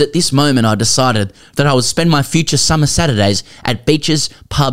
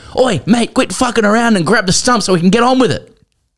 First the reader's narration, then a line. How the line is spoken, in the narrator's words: Cambo shouted